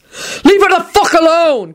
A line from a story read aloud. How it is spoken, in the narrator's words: Quentin bellowed